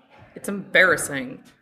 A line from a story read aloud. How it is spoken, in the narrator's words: he mutters